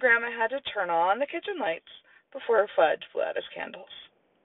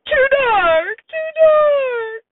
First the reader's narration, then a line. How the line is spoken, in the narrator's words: Sam cried